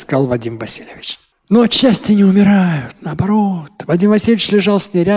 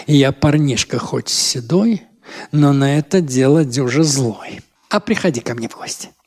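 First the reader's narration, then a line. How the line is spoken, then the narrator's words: Infatuated whisper. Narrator (Russian): он совсем обезумел, шепнул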